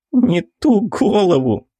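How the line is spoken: Laughing. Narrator (Russian): выдает она сквозь смех

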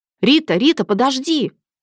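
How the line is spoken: Loud shout. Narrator (Russian): крикнул он, наплевав на окружающих

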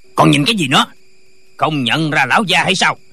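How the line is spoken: Official shouting. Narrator (Vietnamese): Viên quan quát lên

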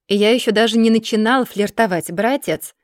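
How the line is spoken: Mocking retort. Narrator (Russian): насмешливо парирует Арман

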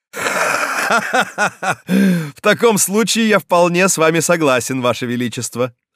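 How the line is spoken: Answered with harsh laughter. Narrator (Russian): ответил Карл с тем же резким хохотом

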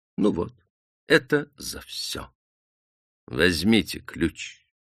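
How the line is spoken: Calm. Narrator (Russian): спокойно

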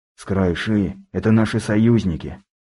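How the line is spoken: Sigh. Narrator (Russian): вздохнул федерал

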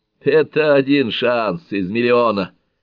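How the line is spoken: Laughing. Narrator (Russian): засмеялся Шелби

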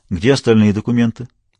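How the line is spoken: Calm question. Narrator (Russian): спокойно спросил Кем

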